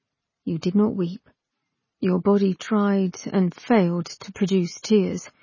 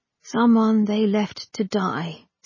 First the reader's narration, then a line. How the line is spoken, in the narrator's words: said God wearily